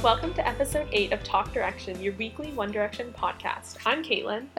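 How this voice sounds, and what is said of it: Congested, stuffed-up voice. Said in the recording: “I have gotten like a cold or something ... my voice is all like stuffed up and messed up, but I sound horrible”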